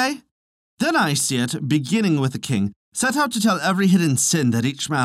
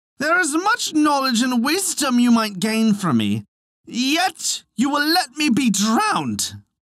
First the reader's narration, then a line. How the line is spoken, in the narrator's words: he cried